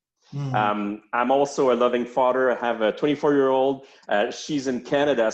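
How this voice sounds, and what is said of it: French-Canadian accent. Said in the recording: “this weird accent that you're hearing right now is a French-Canadian accent.”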